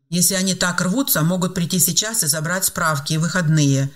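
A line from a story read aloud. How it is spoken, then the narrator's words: Sharp curt remark. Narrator (Russian): резко бросил он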